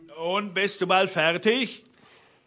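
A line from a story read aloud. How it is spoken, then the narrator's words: Calling from below. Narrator (German): rief der Blaubart unten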